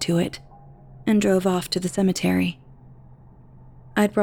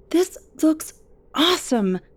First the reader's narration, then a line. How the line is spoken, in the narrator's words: I cried